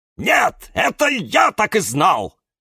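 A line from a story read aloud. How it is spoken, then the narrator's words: Barking. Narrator (Russian): рявкнул кактус Кирилл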